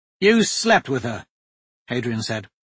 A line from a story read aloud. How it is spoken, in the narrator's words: his tone neither critical nor approving